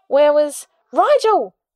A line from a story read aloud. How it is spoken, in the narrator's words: Charlie cried out